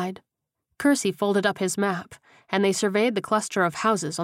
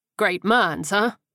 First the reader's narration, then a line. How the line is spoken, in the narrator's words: Johnson chuckled